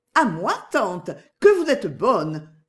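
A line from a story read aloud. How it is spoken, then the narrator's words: Overjoyed exclamation. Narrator (French): s'écria Agnès, ravie au-delà de toute mesure, à l'idée d'un petit endroit, n'importe lequel, où elle pourrait être seule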